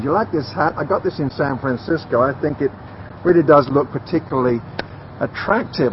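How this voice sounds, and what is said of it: British accent. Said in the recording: “you got the accent ... you have a British accent”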